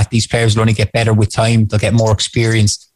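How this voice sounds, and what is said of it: Cork Irish accent. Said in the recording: “The Cork accent comes up when you're talking to the Cork radio station.”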